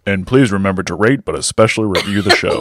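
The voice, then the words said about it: Put-on announcer-style mic voice. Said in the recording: “What is that voice? ... It's my mic voice. I thought it would sound better, you know, for the show. ... Just use your regular voice, weirdo.”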